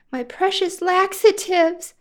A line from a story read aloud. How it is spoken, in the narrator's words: she cried